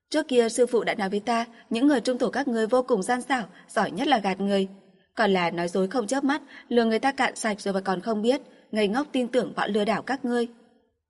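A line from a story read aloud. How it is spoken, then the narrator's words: Spitting, angry. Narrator (Vietnamese): Chu Tước nhổ một cái, tức giận nói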